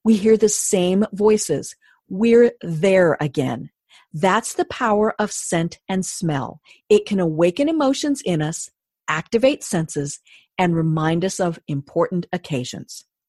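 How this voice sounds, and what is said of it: Announcer voice, carefully enunciated reading. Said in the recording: “I put on my announcer voice when I did that too ... I wanted to obviously enunciate ... I read it differently”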